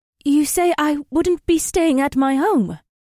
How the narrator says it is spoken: she said in her clear, sweet voice

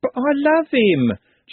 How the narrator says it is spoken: Juliet wailed

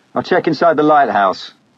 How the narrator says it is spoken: shouted

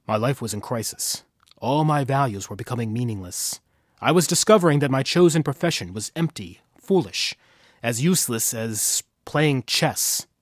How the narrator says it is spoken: Schwartz says to the stewardess in a low, intense tone

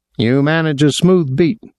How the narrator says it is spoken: Boylan said

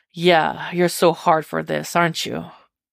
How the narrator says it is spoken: He purrs

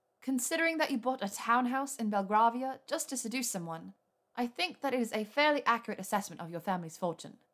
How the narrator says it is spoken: she said in a crisp voice

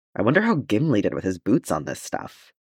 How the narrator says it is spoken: Farron muttered

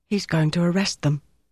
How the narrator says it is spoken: Ruby whispered

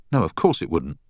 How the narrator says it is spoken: said Beth sharply

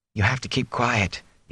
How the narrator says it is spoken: he whispered in his father's ear

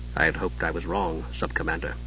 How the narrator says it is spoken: he said quietly

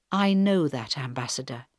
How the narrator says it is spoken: Helen answered quietly

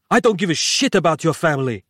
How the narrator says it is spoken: snapped suddenly

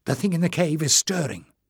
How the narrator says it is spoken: she murmured

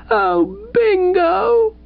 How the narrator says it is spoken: cried Mrs

